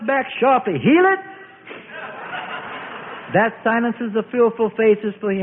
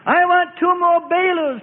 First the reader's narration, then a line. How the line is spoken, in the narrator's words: Peter shouts